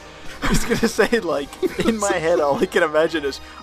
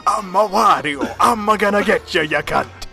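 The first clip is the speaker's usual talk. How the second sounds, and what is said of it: Wario impression, sounding almost Scottish. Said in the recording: “Wario ... That sounded almost Scottish”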